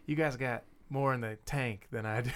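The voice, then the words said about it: Put-on Mississippi accent. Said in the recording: “He's from Mississippi, so that's why I had to do a little bit of an accent.”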